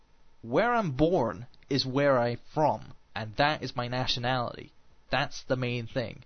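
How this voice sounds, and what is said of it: Americanish accent. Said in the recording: “because I sound Americanish. You know, it got like an American accent.”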